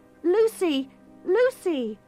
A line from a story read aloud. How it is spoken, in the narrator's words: Afraid, called out